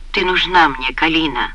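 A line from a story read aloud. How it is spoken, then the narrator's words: Delirious mumbling. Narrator (Russian): бормотал он в забытьи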